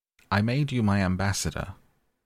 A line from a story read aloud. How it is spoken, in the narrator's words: the king called out hastily